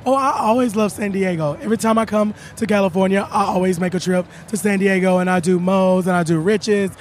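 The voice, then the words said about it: Worn-out, strained voice. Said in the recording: “I've been talking a lot, so my voice is gone”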